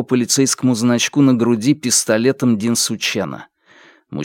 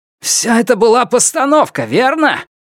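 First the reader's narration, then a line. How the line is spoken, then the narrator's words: Shout from behind pillar. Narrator (Russian): крикнул Сяо Вон из-за столба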